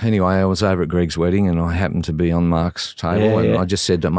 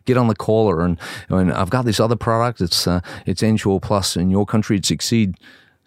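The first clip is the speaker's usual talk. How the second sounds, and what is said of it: Put-on American accent. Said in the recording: “He's American, you know, do the American accent best again.”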